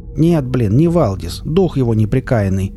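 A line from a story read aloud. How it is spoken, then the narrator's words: Grumbling. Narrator (Russian): снова проворчал Валдис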